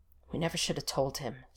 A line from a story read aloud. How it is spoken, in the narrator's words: Stiles grumbled